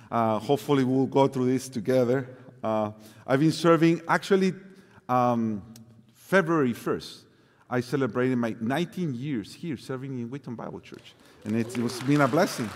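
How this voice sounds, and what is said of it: Mexican-accented English. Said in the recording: “I don't have the spectacular Colombian accent that Hannibal has. ... Mine is a little more a broken Mexican accent.”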